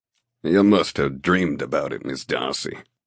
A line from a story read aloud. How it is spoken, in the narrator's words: he says gruffly